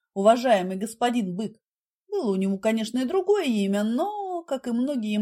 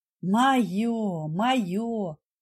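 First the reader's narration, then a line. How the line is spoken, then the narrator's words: Sighing fat man. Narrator (Russian): вздохнул толстяк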